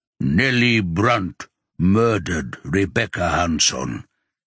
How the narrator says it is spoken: he says slowly

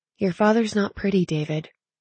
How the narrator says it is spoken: she answered softly

